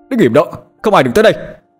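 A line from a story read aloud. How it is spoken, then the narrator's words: Shouted. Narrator (Vietnamese): Hải hét lên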